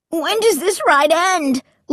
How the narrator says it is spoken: Luke cried

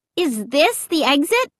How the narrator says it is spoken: I cried

